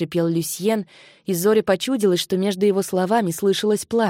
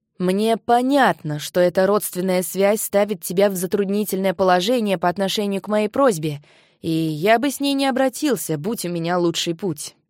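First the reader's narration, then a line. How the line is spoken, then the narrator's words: Plain. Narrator (Russian): сказал Кай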